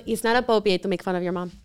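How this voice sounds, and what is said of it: Imitates someone's heavy foreign accent. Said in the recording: “my mom has a really heavy accent. It's really adorable. She can't say the word appropriate.”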